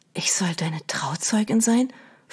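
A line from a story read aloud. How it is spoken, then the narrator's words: Whispered. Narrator (German): flüsterte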